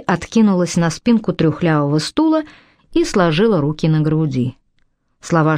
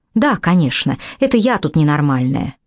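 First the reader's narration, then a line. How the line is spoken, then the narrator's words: Capricious tone. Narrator (Russian): Шей заговорила своим обычным капризным тоном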